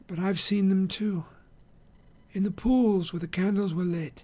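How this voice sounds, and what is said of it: Dreamlike, distant voice. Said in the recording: “in a dreamlike voice”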